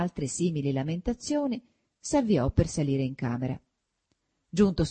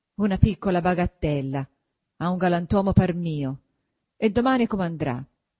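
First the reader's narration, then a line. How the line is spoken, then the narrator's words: Grumbling. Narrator (Italian): brontolando sempre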